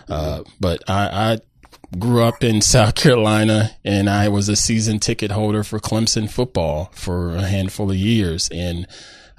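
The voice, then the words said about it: Southern American drawl. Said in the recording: “I'm a Carolina man. I'm sure you can tell from my Southern drawl.”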